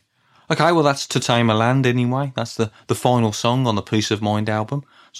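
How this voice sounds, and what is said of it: Birmingham accent, flat tone. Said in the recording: “my Brummie accent ... My levels of excitement may seem quite static”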